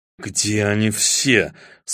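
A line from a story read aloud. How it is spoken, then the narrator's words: Furious whisper. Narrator (Russian): с яростным шепотом Среда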